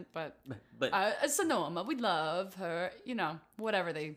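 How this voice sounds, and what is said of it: Put-on Italian-sounding accent. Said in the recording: “Why are they Italian?”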